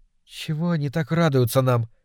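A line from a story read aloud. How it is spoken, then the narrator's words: Quiet question. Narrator (Russian): тихонько спросила Леночка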